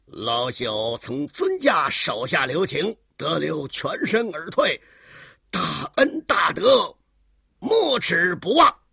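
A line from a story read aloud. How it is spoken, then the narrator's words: Sinister laugh. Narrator (Chinese): 当时他狞笑了一声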